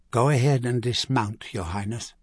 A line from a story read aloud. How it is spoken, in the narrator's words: he said quietly